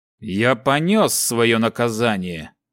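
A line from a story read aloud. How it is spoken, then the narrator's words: Through gritted teeth. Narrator (Russian): процедил Джонга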